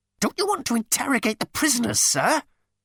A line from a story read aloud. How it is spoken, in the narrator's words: he squealed